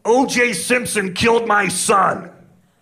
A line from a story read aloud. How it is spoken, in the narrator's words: The guy gets mad and screams at him